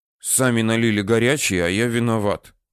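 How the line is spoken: Grumbling. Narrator (Russian): проворчал Митя

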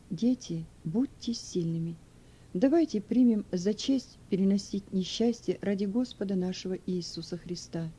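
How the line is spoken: Moved, quiet whisper. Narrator (Russian): Старая женщина была тронута теплым отношением к ней со стороны своей семьи и тихо прошептала

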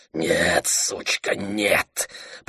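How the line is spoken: Raven's growl. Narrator (Russian): прорычал ворон

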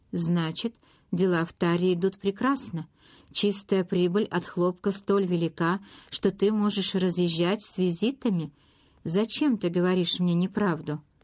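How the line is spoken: Flat colorless question. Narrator (Russian): Бесцветным голосом он спросил

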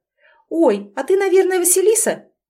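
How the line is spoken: Cheerful smiling exclamation. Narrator (Russian): воскликнула она, сияя очаровательной улыбкой

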